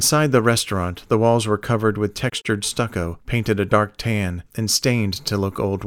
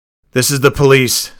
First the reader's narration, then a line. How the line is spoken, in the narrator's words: Sanders shouted